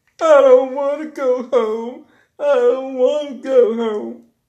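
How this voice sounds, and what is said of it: Imitates a whining little kid. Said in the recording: “Like a little kid at Chuck E. Cheese ... I had to do my impression right quick.”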